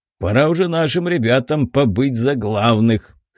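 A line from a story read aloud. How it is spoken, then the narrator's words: Wry snort. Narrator (Russian): хмыкнул Нил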